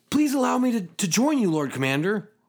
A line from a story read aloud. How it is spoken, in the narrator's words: pleaded